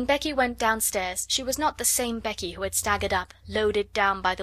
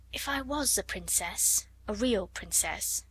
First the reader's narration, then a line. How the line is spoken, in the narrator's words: she murmured